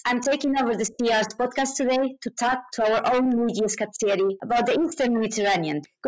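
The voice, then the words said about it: Spanish accent. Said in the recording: “the CER's Spanish resident, as you might have guessed by my accent.”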